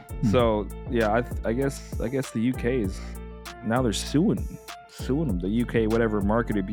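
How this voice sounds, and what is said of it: Usual voice. Nothing is said of it.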